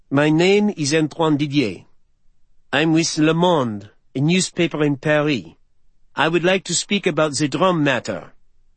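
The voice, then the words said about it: Thick French accent. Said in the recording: “A man with a thick accent, possibly French”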